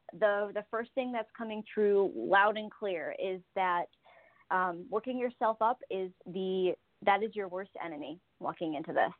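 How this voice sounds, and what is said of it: Talking very fast, anxious. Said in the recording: “I'm talking too fast.”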